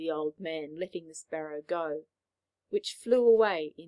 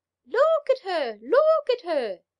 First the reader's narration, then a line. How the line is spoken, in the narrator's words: they all cried